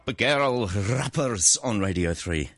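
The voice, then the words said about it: Put-on Scottish accent. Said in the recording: “Did you do that in a Scottish accent? ... It was quite good. It made me feel a bit homesick.”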